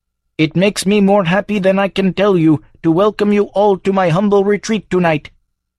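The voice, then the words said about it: Droning flat monotone. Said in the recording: “droned in a remarkably un-Abdul-like monotone”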